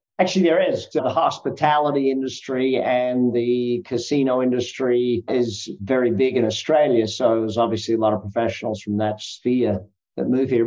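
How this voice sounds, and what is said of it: Australian accent. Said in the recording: “Australian by birth ... I know you have an accent.”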